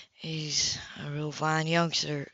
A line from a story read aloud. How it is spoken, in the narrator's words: Kilrim said quietly